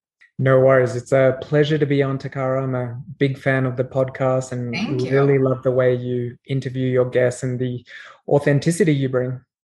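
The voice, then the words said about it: Australian accent. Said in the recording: “I love a good Australian accent ... I'm Australian by origin, as you can tell from my accent”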